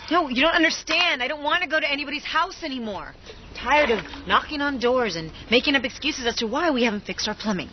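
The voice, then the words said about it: Yelling, angry raised voice. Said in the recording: “Why are you yelling”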